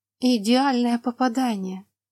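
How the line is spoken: Breathless exclamation. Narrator (Russian): выдохнула леди Рен

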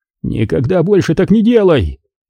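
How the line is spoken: Near-panicked screaming. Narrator (Russian): завопил Тре почти на грани паники

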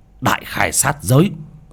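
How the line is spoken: Sudden shout. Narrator (Vietnamese): bác cổ quát lên một tiếng

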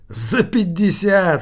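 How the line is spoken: Loud laughter. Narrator (Russian): хохотал Килькин

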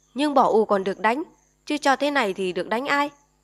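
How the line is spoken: Irritated snapping. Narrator (Vietnamese): Bà gắt

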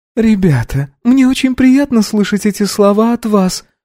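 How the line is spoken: Cooing. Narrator (Russian): проворковала Баджи

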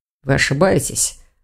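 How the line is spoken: Muttered. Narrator (Russian): пробормотал дракон

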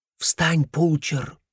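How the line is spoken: Theatrical whisper. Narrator (Russian): произнес он театральным шепотом

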